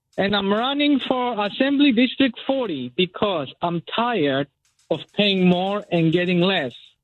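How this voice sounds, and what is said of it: Foreign immigrant accent. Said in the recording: “As you can hear from my accent, yes, I am an immigrant”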